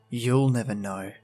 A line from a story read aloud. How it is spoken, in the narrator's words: I mutter